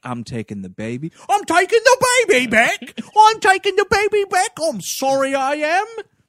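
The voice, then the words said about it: Deliberately bad put-on accent. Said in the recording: “The worst accent.”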